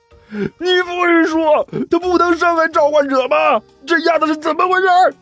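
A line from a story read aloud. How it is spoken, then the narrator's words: Loud angry roar. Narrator (Chinese): 甘球捂着自己的眼睛，对着刘阿八大声吼道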